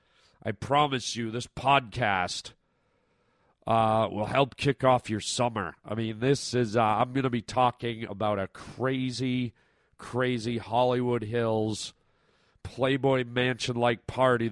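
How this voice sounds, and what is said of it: Hoarse, gravelly voice from a cold. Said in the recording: “Oh, what a throat ... I have a bit of a cold happening, a bit of a bad throat ... my gravelly, sexy voice”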